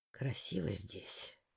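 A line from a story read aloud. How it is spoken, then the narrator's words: Velvety whisper. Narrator (Russian): бархатным шепотом прошептал Лаур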